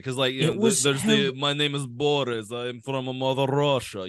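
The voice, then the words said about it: Put-on Russian accent. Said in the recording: “faking a Russian accent ... how good of an accent was it?”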